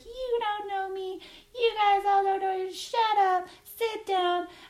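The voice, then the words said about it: High-pitched squeaky voice. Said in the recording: “She's got this really high-pitched, squeaky voice.”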